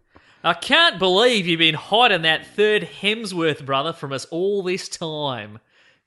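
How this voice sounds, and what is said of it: Put-on Australian accent. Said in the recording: “offensive Australian accent... I'll do it in Australian accent.”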